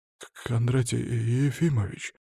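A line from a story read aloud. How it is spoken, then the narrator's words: Resigned, doomed voice. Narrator (Russian): обреченным голосом поинтересовался директор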